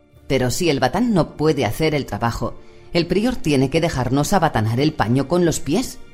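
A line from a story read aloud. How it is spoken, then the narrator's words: Indignant exclamation. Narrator (Spanish): exclamó indignada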